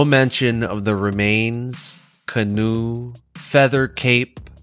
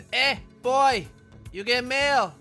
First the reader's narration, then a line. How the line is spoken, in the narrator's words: his mom shouted from inside